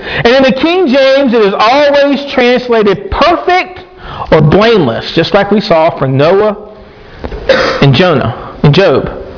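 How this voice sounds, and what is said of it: Southern American accent. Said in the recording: “I'm pronouncing that with my southern accent.”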